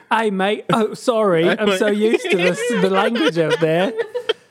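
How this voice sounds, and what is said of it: Put-on British accent sounding Australian. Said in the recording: “goes to London for the first time ... I think I was Australian, but close enough ... That was pretty good”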